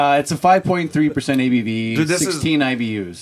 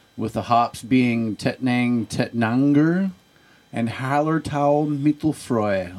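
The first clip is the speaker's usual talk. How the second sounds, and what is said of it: Put-on accent, self-described as terrible. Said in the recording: “Well, at least with the accent you used. ... Yeah, I'm terrible.”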